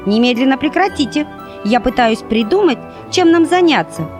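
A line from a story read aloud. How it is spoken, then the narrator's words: Sharp shout. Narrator (Russian): прикрикнул Усатик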